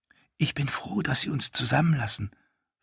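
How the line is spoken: Whisper. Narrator (German): flüsterte Hella

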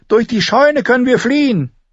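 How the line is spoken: Calling out. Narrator (German): rief

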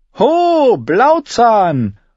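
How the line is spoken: Calling out. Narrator (German): rief sie einem der vorbeigehenden Seefahrer zu

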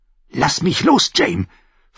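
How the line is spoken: Hissing snap. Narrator (German): fauchte sie

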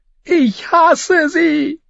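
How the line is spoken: Screamed. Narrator (German): schrie

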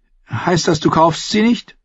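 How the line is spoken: Woman giggling. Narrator (German): Die Frau kicherte

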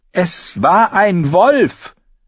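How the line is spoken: Shouting. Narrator (German): schrie sie die Jungen an

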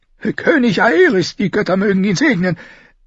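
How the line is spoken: Old man replying too loudly. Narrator (German): erwiderte der Greis doch zu laut

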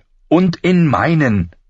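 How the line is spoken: Snapped angrily. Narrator (German): fuhr sie ihn zornig an

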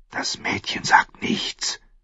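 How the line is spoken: Sharp whisper in ear. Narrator (German): flüsterte eine scharfe Stimme ins Ohr

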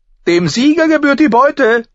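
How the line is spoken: Exclaimed. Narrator (German): rief aus

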